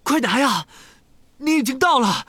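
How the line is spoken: Panting. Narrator (Chinese): 哈利喘着气对塞德里克说

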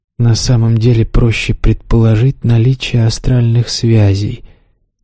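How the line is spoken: Quiet. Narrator (Russian): тихо сказал демон

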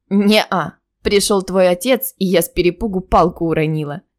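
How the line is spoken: Laughing. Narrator (Russian): рассмеялась я

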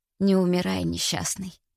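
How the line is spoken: Whisper. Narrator (Russian): прошептала

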